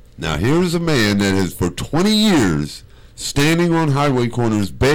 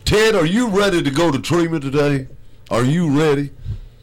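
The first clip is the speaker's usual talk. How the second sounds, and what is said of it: Imitates another person's voice. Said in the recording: “my impression of Dr. Phil”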